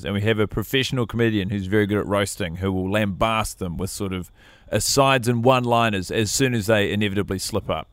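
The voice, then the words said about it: New Zealand accent. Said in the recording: “I've got a New Zealand accent.”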